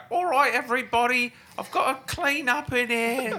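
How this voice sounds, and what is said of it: Old-timey tea lady voice. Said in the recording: “I'm imagining like old timey tea tea lady ... It sounded like a witch.”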